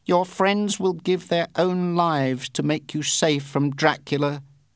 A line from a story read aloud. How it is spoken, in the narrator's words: he said